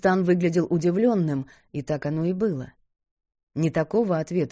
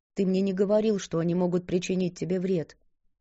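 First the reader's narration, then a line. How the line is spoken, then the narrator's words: Quiet. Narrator (Russian): тихо произнесла Дилан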